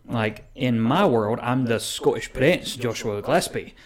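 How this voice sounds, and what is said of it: Put-on Scottish accent. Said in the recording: “That was my Scottish accent for my professional wrestling character.”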